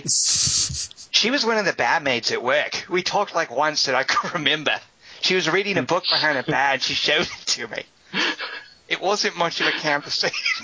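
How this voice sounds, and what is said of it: Faltering put-on Australian accent. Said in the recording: “my Australian accent fell apart ... Jesus, that was awful”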